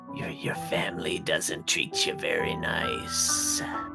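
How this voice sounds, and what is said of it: Small, little character voice. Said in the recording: “in a little voice ... it should not sound like Thelma”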